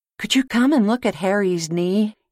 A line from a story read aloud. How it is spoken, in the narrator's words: he asked in a rather frightened voice